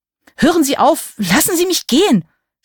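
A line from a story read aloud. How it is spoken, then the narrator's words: Screaming. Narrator (German): schrie ich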